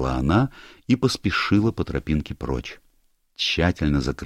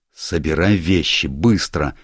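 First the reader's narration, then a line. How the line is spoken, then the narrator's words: Barked order. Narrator (Russian): рявкнул он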